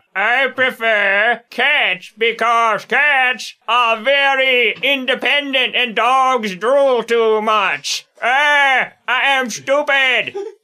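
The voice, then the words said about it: Dumb alien character voice. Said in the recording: “I'll pretend to be a dumb Earthenoid and do a dumb Earthenoid impression in my answer.”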